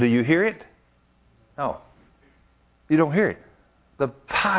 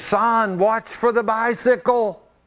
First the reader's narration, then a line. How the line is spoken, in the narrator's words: on the other end screaming